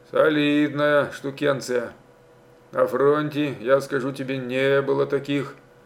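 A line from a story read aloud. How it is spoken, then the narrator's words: Mumbling. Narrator (Russian): пробормотал он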